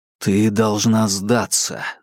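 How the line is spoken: Whisper. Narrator (Russian): зашептал ей Марк

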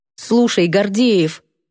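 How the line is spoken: Stern, hopeful address. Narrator (Russian): строго сказала, не без надежды на понимание

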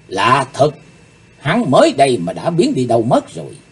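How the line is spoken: Muttering. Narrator (Vietnamese): Cô ả lẩm bẩm

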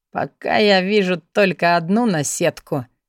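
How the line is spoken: Wry grunt. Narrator (Russian): хмыкнул Алекс

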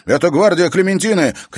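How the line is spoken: Shouted. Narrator (Russian): крикнул Алекс

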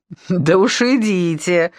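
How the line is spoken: Loud laughter. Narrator (Russian): захохотала Ирина Анатольевна

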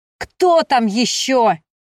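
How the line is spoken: Angry shout. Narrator (Russian): злобно выкрикнул Ариан

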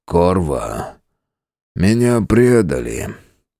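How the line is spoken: Sad. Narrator (Russian): грустно произнес он

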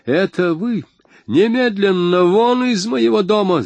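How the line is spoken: Yelling. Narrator (Russian): завопил он

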